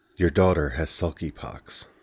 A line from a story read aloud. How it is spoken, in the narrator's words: said in a soft, calm voice